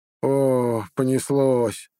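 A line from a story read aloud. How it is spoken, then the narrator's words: Dismissive drawl, prince. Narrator (Russian): пренебрежительно протянул принц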